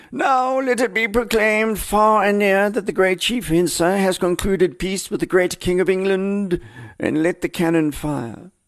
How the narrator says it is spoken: Smith, sensing a moment of great drama, cried out melodramatically

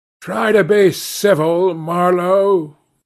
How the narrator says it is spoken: growled a voice

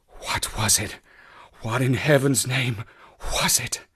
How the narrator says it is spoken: he whispered

